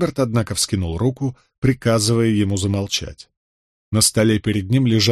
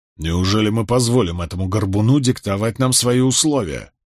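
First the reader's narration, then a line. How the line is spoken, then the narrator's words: Grumbling. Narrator (Russian): проворчал он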